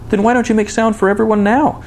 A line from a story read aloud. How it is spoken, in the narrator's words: he shouted so eagerly